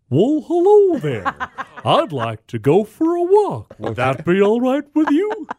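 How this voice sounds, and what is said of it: Silly moose character voice. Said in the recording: “Give us a silly voice ... your famous voice ... the moose voice”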